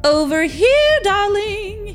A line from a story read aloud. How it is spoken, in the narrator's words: he shouted